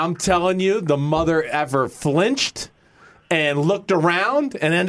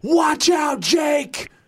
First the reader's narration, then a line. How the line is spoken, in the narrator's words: I yelled